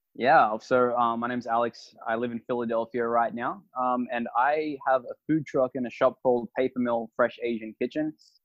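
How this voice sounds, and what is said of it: Australian accent. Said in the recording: “What's the accent? ... Australian.”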